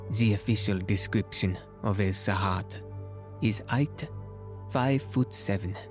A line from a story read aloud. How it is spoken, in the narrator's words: Poirot paused and then added softly